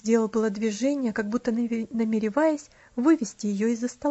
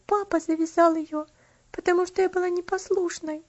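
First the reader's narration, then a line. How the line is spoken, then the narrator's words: Girl answering with a sob. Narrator (Russian): ответила девочка, не сумев сдержать всхлипывание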